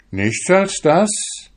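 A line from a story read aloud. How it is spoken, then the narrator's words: Astonished young man exclaiming. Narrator (German): rief der junge Fischer verwundert aus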